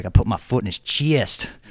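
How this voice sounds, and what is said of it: Imitated southern accent. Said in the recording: “this is going to be an even worse impression than the one I did ... he has that southern accent”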